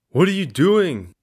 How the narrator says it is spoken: Nate yells

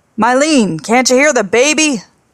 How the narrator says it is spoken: He put his face to the window screen and shouted

